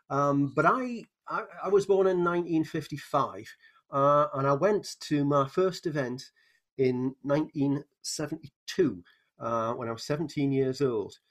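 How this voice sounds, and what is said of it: Strong northern English accent. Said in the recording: “I was brought up in Newcastle upon Tyne in England, which has a particular northern accent ... I don't talk like the people off Downton Abbey ... It has quite a strong accent.”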